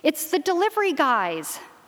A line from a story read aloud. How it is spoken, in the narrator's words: Joey's mother, Selena, said brightly